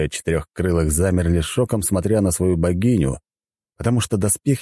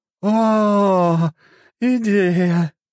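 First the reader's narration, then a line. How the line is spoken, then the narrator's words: Drunk goddess exclaiming. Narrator (Russian): воскликнула пьяная богиня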